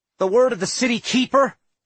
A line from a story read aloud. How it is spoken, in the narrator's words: I snapped